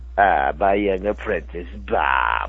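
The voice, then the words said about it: Imitates Palpatine's character voice. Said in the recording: “You're doing some impersonation, I'm guessing? ... I said Palpatine”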